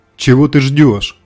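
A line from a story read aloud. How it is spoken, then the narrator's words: Sudden shout. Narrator (Russian): вдруг крикнула Земфира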